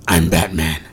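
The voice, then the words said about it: Imitated Batman character voice. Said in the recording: “do the original Batman voice”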